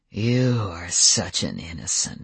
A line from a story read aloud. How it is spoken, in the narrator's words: he said in a low, angry purr